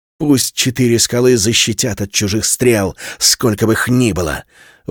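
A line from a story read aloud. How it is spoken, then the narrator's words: Shouted out. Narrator (Russian): выкрикнул Герард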